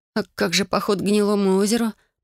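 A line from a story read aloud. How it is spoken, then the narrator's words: Moaning. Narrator (Russian): простонала я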